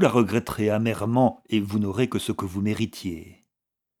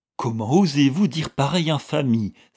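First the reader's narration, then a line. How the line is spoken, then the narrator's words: Exclaiming. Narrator (French): s'écria Vixen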